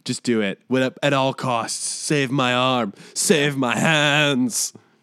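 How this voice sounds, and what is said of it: Poor Benedict Cumberbatch impression. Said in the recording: “I do a better Benedict Cumberbatch impression. That was just horrible.”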